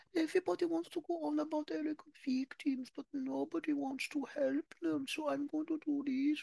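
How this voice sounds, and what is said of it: Imitates another person's voice. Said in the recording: “I love doing my Diana impression.”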